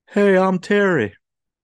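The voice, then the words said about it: Terry Funk impression, Hank Hill-like. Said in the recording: “do my Terry Funk voice, which sounds a little bit too much, maybe like Hank Hill”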